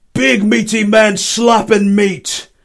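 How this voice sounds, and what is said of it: Imitates a wrestling commentator's voice. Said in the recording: “I'm going to try and do my best Wade Barrett impersonation, who is the commentator for Monday Night Raw.”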